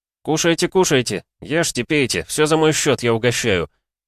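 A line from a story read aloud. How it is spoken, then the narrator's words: Loud. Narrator (Russian): громко произнес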